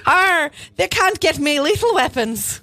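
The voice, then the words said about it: Leprechaun-like Irish-sounding voice. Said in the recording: “That was my Mel Gibson ... sounded like you were Lucky the Leprechaun ... best impression”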